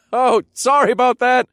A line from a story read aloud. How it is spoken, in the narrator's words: I called out